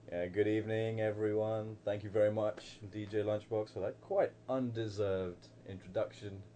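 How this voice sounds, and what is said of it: London English accent. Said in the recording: “this is not an accent that's been put on. This is from the mean streets of London, England”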